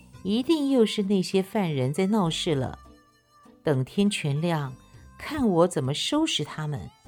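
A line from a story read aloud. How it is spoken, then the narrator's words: Lazy laughing. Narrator (Chinese): 吴元济懒洋洋地躺在床上，笑道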